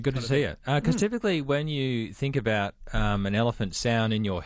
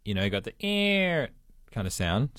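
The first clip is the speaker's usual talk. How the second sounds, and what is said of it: Poor imitation of elephant sound. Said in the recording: “terrible impersonation.”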